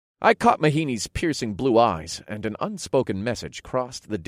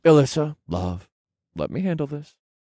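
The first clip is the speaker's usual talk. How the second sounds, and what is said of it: Sweet, gentle voice. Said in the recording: “I requested in my sweetest voice”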